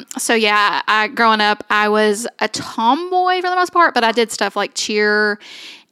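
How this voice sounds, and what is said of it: Strong Southern US accent. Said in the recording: “you already have a wildly Southern accent.”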